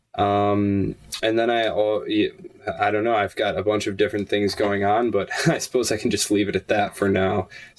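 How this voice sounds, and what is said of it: Tired-sounding voice. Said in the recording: “I'm sorry if I sound tired.”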